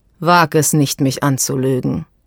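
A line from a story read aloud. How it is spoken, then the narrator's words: Calm man's voice. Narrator (German): sagte der Mann ruhig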